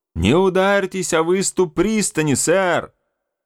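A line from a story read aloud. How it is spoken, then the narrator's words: Shout. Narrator (Russian): крикнул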